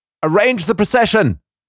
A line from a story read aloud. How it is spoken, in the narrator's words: cried the 20 committee men